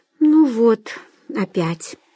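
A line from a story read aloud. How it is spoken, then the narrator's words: Sighing. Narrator (Russian): вздохнула Вера Александровна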